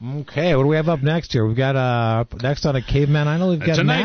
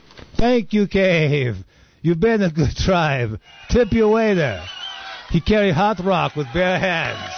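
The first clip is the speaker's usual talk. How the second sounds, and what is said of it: Weird caveman voice, Rhode Island-like accent. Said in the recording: “What a weird accent that guy had. Well, sounded like he was from not New Jersey, but maybe somewhere up in Rhode Island or something.”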